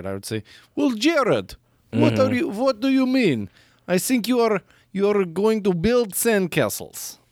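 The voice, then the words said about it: Put-on Russian accent. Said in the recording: “I have a Russian accent”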